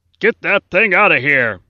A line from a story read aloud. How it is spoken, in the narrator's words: the warden shouted